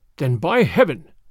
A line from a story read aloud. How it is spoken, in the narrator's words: snarled the Russian